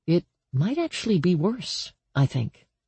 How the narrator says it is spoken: Danny murmured

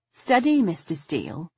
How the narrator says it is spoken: I said softly

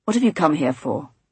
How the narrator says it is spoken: he said sharply

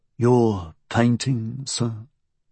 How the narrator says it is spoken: Utterson said wearily

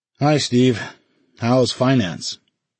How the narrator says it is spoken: Ordner groaned theatrically

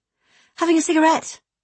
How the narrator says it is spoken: replied breathlessly

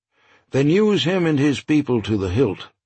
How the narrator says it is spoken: Stone said

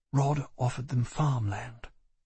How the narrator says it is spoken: she said quietly

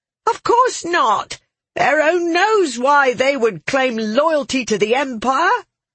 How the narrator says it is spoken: Jeffers's wife answered in a shrill voice

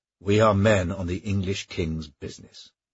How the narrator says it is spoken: said Blackstone

